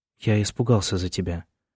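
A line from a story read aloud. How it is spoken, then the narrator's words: Quiet. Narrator (Russian): тихо сказал Джеймс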